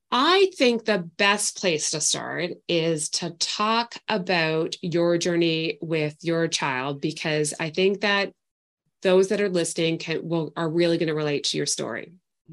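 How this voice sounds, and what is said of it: Canadian accent with a twang. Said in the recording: “I love the way that you say about. ... I love that little twang accent in there. ... Canadian, eh?”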